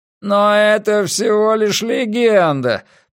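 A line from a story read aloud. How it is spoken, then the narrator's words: Moaning. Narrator (Russian): простонал Финли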